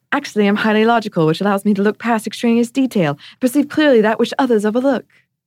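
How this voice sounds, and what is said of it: Imitating Hermione Granger's British accent. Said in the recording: “should I do my Hermione accent? ... She even says it in that cadence. The accent wasn't good, but the timing was very good.”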